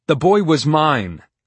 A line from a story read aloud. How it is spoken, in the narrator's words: I continued to shout